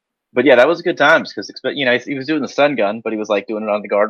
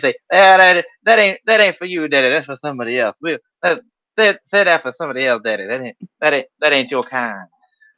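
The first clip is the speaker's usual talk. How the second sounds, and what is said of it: Bad Dusty Rhodes impression. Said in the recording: “a bad Dusty impression done by Steve Austin doing the bad Dusty impression”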